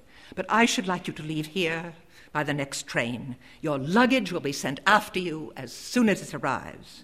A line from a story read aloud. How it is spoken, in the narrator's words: Quarball firmly